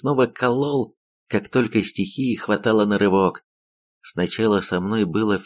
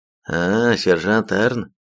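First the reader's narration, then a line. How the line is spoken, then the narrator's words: Tired statement. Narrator (Russian): устало констатировал Бас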